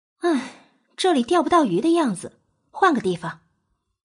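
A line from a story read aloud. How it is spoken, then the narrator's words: Sighing. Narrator (Chinese): 叹息一声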